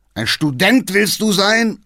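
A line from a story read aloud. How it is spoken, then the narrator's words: Old man shouting. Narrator (German): schrie der Alte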